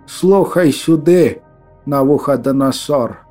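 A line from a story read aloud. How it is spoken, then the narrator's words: Barely audible rasp. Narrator (Russian): Прохрипела она чуть слышно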